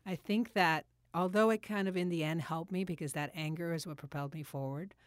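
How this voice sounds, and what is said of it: Emotional, choked-up voice. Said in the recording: “I think I'm getting emotional.”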